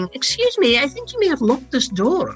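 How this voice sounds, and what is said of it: Gentle posh Edinburgh Morningside accent. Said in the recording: “a sort of gentle Morningside accent”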